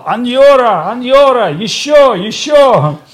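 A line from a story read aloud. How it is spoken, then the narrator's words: Shouting. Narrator (Russian): он кричал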